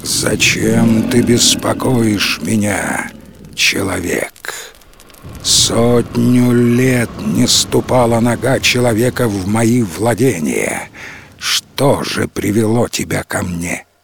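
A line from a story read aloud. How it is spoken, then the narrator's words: Majestic, powerful voice. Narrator (Russian): Владыка леса спросил величественным голосом, от которого задрожали листья на деревьях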